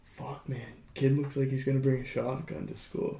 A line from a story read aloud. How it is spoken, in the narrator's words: under his breath, and he goes